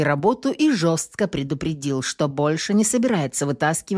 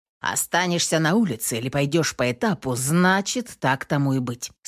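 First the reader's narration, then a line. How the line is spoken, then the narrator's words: Plain. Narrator (Russian): сказал он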